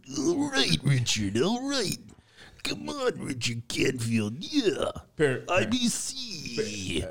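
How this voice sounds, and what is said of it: Imitates a pro wrestler's voice. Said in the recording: “doing a wrestler impersonation ... Apparently, the Macho Man, Randy IBC Savage, showed up to the podcast.”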